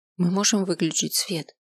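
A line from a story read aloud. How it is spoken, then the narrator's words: Timid question. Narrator (Russian): робко спросил я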